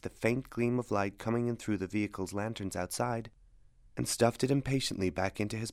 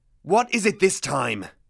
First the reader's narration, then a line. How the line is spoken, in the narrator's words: He snarled